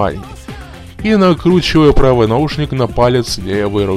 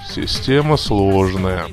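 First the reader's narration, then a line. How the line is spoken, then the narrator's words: Gloomy, skeleton. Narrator (Russian): мрачно повесил скелет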